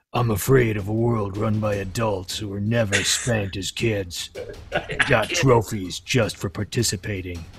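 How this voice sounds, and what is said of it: Imitates another person's voice. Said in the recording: “you got to say it like him. can you imitate his accent and say it? ... imitating Clint Eastwood.”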